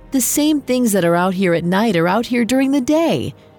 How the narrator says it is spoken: Lycius laughed and yelled

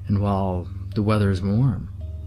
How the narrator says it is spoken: I said with a sigh

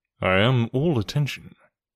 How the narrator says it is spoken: said Sherlock Holmes

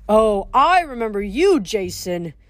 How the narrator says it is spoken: Terminus grumbled

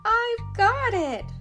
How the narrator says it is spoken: Leah shouted

